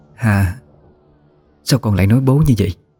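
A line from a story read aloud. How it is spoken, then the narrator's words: Trembling voice. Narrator (Vietnamese): cô cất lên giọng nói run rẩy của mình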